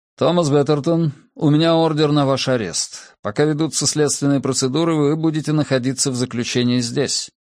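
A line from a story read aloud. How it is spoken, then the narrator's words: Formal official announcement. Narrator (Russian): Первый из вошедших официальным тоном объявил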